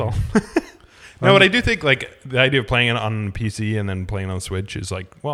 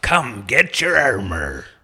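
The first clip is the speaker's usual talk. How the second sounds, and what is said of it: Imitates a video game character's voice. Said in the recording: “my best Torbjorn impression ... That's pretty good.”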